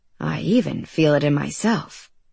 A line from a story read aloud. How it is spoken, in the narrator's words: he said, lowering his voice